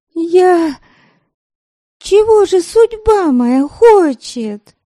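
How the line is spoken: Despairing cry. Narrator (Russian): В отчаянии воскликнула Девляна

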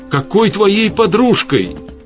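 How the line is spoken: Shouted out. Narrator (Russian): выкрикнула Светлана

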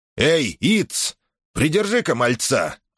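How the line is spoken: Shouted. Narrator (Russian): крикнул он

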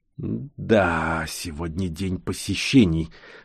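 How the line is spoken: Hissing whisper. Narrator (Russian): свистящим шепотом произнес

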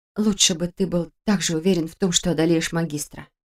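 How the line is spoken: Quiet remark. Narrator (Russian): тихо заметила я

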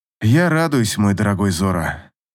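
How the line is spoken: Hoarse. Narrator (Russian): хрипло сказал Рас

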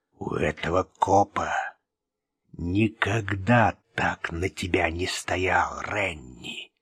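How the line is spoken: Whisper. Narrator (Russian): прошептал Лозадо

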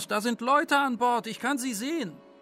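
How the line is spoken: Man calling out. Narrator (German): rief ein Mann vorne aus

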